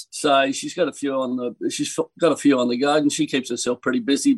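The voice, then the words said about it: Australian accent. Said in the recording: “the American accent hasn't infiltrated your speech ... there's no American twang coming out ... I'd like to sound Australian”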